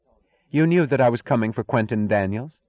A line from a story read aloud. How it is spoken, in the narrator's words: asked coldly, in the tone of an enemy's accusation